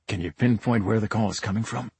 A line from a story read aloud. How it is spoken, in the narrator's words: I whispered back